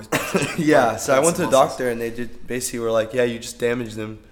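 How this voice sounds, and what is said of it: Weird, damaged congested voice. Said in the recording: “laryngitis ... congested all over ... I have like a weird voice ... I can't hit certain notes anymore ... you probably damaged your voice ... I probably sound super weird”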